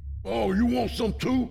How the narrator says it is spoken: He shouted

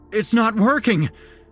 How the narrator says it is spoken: cried over the beast's enraged screams

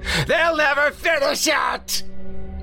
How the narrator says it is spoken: Its cries became an incoherent wail of rage and agony, and then disappeared entirely in the roaring boom

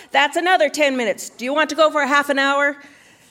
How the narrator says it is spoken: yelled

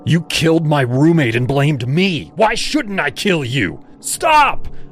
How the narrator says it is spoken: I shouted

